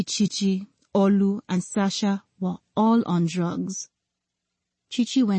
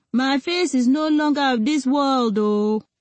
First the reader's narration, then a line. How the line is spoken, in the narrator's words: inebriated old man shouting